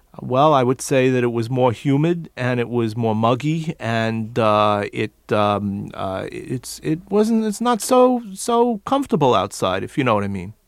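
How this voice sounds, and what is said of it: Put-on New York accent. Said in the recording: “when you did it New York style”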